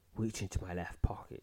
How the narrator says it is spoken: she whispers

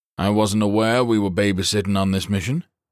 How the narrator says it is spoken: Baker said dryly

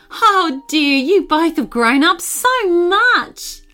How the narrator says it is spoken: Aunt Jenna exclaimed

